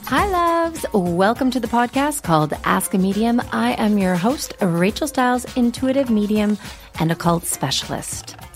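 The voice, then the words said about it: Crusty voice from a cold. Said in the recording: “I have a little bit of a cold today, so my voice is kind of crusty, and I have this perpetual coughing hack.”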